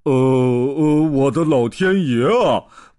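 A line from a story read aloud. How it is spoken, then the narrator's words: Startled cry. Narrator (Chinese): 布鲁姆博士也不由得惊叫了起来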